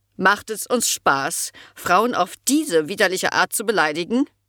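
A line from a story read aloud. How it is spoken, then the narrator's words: Very loud question. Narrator (German): fragte sie sehr laut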